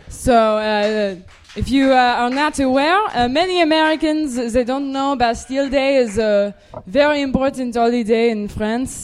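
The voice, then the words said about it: Put-on French accent. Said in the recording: “this week, you have a different accent... I always have a French accent... I have this accent now. It's very bizarre.”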